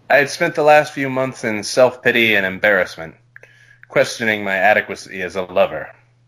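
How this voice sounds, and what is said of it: Put-on sexy, sultry reading voice. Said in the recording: “sexy voice ... he's making this kinky”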